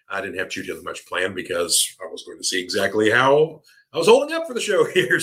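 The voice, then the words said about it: Tired voice, deeper than usual. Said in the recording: “my voice is starting to give out here a little bit ... I have a little more bass in the voice here”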